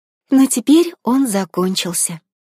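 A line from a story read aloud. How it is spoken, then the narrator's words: Sad. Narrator (Russian): грустно добавила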